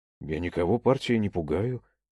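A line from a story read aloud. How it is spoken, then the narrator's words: Calm. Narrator (Russian): спокойно ответил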